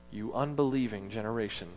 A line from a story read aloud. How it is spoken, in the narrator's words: Jesus replied